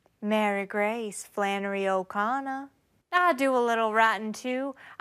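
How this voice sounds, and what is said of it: Southern American Georgia accent. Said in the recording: “your strange accent ... I'm from Georgia.”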